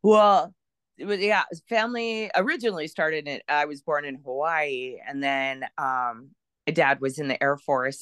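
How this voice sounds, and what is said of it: Valley girl accent. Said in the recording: “you have this awesome Valley girl accent that I envy”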